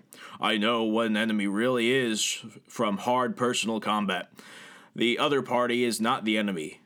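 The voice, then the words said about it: Impression of Jim Webb. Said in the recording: “I need to do my Jim Webb voice”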